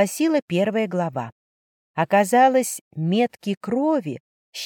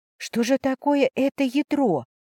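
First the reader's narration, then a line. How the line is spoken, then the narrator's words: Whispered under breath. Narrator (Russian): прошептала я себе под нос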